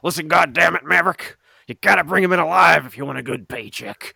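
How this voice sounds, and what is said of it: Intense, terrible-sounding character voice. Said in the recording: “the intense Sheriff Jeff ... his voice is so terrible”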